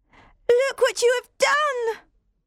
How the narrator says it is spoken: I cried

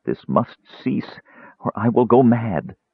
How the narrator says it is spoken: murmured brokenly

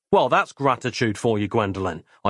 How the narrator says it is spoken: I said coldly

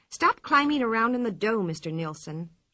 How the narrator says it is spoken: she said crossly

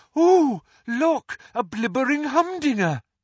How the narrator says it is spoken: she had cried

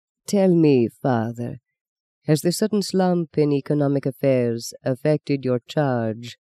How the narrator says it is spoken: the Italian prelate asked smoothly

